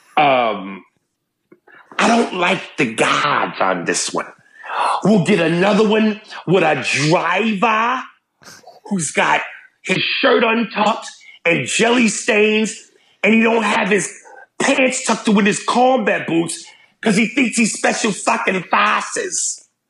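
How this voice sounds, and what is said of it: Bad put-on Boston accent. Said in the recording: “my horrific Boston accent”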